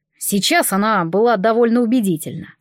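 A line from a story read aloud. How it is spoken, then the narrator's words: Plain. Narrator (Russian): сказал Нейт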